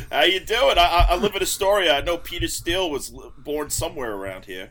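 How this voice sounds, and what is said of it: Very thick New York accent. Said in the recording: “Dude's got the thickest New York accent I've ever heard.”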